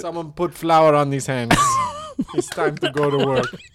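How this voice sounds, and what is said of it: Put-on Italian accent. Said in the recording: “Chef Torio has an Italian accent.”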